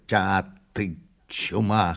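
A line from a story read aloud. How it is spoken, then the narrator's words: Hoarse rasp. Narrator (Russian): хрипнул князь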